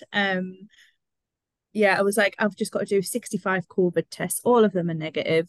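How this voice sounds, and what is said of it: Voice sounds off from a cold. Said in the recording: “trying to fight off whatever cold is attacking my immune system... if I sound a bit weird”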